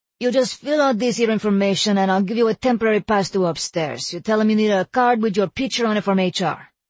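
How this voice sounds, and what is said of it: Mixed Spanish and New York accent. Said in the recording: “He spoke with a mixed Spanish and New York accent”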